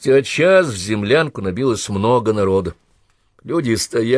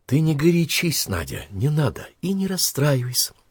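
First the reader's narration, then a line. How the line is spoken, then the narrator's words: Soothing whisper. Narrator (Russian): шепнула Наталья новой подруге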